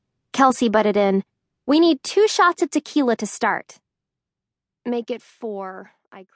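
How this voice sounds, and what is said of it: Usual voice. Nothing is said of it.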